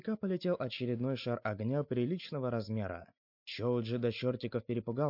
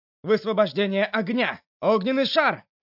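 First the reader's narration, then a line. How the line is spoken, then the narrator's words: Shout. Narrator (Russian): выкрикнул он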